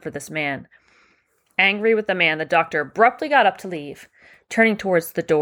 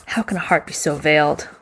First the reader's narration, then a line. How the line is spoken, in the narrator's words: the doctor would ask himself sadly